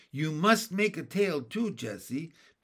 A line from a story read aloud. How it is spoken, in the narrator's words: begged Benny